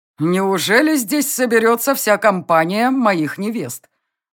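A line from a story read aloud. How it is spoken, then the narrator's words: Loud, smirking. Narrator (Russian): Усмехнувшись, громко произнес принц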